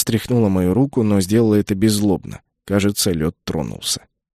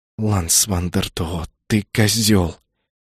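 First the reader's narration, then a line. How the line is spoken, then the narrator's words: Hissing. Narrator (Russian): прошипела она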